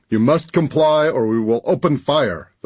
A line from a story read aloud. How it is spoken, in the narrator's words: the voice boomed